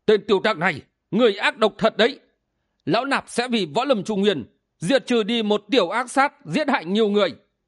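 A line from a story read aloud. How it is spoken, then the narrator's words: Angry bellowing. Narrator (Vietnamese): Ảo Ma Đầu Đà quát tháo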